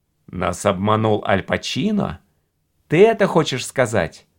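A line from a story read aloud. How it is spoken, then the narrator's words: Plain. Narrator (Russian): спросил Гард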